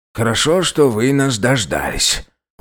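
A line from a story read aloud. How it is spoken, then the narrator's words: Breathless exhale. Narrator (Russian): выдохнул полный Федор Муратович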